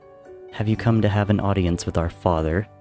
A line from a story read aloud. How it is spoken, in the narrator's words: the older prince asked in a decidedly more level tone